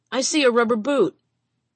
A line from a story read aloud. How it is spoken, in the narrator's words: Crawling down below, one of the men hollered